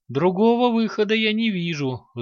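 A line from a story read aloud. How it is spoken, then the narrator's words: Jester sighing. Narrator (Russian): вздохнул скоморох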